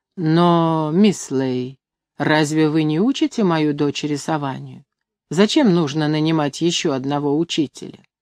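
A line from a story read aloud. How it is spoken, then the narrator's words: Slow reply. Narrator (Russian): Медленно Конан ответил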